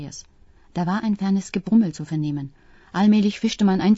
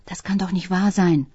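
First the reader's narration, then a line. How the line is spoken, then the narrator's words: Whisper-shouted. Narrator (German): schrie flüsternd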